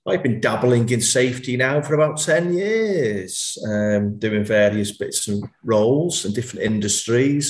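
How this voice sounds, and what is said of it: Guttural Merseyside accent. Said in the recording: “a police officer with Merseyside Police, as you can hear from my guttural accent”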